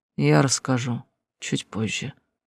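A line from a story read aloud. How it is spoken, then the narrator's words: Quiet. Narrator (Russian): Хаундайр тихо произнес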